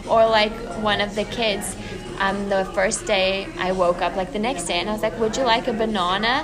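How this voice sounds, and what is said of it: South African accent, sounds British. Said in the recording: “that's how I would pronounce it in South Africa ... I love it when you use your accent ... It makes you sound very fancy ... Very British”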